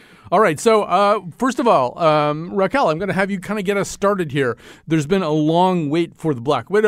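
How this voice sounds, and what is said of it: Usual voice. Nothing is said of it.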